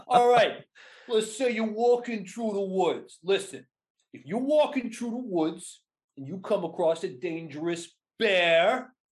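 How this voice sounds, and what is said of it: New York mafioso accent. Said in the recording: “I did New York for the animals bit, and it came across like a mafioso running a protection attack”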